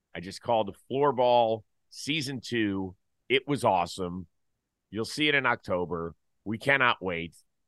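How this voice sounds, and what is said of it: Rough, worn-out voice. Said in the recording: “I apologize for sounding like shit ... that's why my voice sounds this way”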